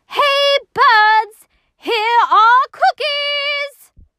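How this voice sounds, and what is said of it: Loud shouting voice. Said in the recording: “He shouted in a loud voice”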